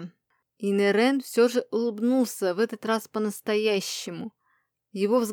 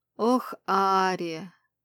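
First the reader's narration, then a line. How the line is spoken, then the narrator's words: Heavy reproachful exhale. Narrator (Russian): выдохнул он тяжело и укоризненно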